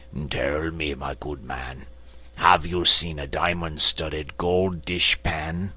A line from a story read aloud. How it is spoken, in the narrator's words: the Frogman approached, and said with a haughty croak